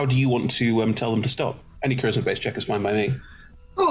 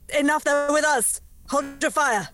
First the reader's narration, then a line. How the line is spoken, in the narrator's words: Shouting speak in Elven